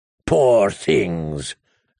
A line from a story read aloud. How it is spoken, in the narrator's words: growled the slaver